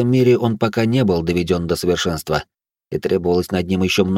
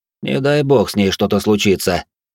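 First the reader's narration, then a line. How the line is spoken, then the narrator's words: Cold tone. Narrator (Russian): произнес я холодным тоном фирменной визитной карточкой Василиска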